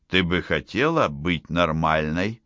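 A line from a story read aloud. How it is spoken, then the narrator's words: Plain. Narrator (Russian): спросил он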